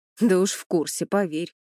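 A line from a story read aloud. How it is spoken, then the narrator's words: Snorting. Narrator (Russian): Владимир хмыкнул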